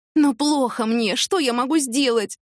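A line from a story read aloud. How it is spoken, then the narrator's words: Moaning. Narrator (Russian): простонала та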